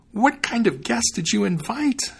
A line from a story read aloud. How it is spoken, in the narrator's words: she cried